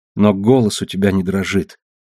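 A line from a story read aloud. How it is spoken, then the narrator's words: Sad objection. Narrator (Russian): возразила она печально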